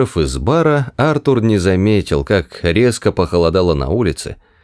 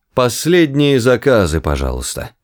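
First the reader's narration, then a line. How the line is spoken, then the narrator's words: Nervous cough, then loud. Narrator (Russian): Бармен нервно кашлянул и громко произнес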